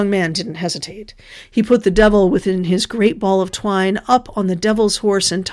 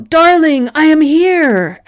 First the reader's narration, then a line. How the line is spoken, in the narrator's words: The devil cried out